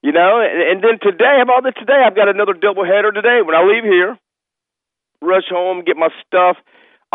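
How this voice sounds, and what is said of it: Hoarse, strained voice. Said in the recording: “my voice is gone because there's a lot of yelling and screaming”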